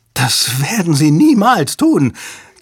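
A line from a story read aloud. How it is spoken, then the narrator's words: Shriek. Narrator (German): kreischte Hale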